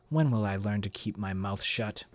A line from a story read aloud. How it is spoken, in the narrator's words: Bridget muttered beneath her breath